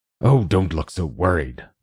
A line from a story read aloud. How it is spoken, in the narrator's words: the professor growled